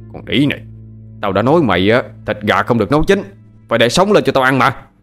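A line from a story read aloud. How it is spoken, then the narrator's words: Angry shout. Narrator (Vietnamese): Hắn quát lên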